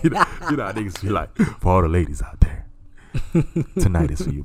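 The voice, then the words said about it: Smooth put-on radio DJ voice. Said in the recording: “This is me getting my radio voice.”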